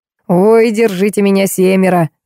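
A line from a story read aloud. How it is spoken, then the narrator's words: Howled. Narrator (Russian): взвыл Карлуша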